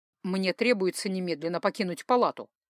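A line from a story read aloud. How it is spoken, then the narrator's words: Calm explanation. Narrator (Russian): спокойно пояснил он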